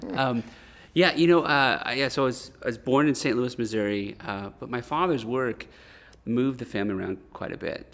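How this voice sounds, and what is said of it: American Midwestern accent. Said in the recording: “I've been told I have a Midwestern accent.”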